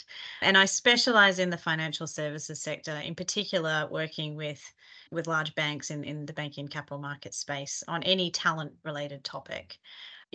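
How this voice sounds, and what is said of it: Australian accent. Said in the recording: “Australian originally, you might be able to tell from my accent.”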